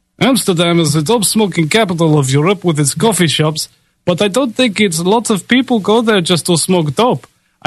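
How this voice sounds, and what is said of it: Attempted Dutch accent. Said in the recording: “Can I ever do a Netherlands accent? I don't know if it's in my repertoire. Let's just try something.”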